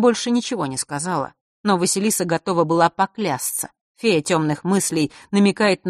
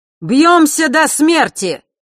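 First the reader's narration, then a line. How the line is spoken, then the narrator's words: Fearless smiling shout. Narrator (Russian): выкрикнул зодчий, бесстрашно улыбаясь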